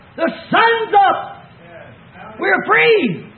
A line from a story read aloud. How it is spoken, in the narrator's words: he hollered out